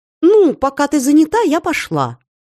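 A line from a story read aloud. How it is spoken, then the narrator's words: Cheerful. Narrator (Russian): бодро сообщила Слася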